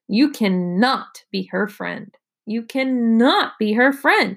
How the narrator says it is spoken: shouted Evan

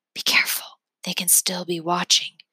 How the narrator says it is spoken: Calvin whispers

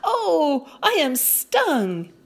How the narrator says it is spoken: exclaimed

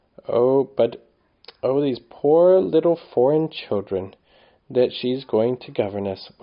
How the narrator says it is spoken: whimpered Phyllis

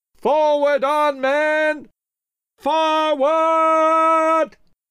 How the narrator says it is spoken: He shouted

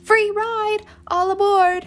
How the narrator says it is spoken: a boy who ran alongside them yelping

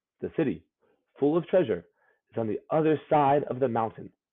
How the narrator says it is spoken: the boy said

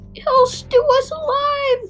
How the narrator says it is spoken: cried the second one

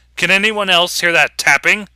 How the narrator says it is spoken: I shout

